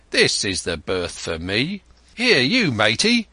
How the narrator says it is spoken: cried

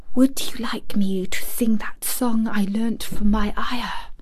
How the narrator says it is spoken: Mary whispered to Colin

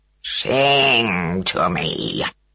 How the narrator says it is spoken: growled Ngorongorui

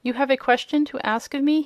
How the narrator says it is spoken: he said

